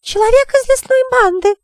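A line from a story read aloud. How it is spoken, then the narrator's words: Shrieked. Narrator (Russian): взвизгнула леди Равена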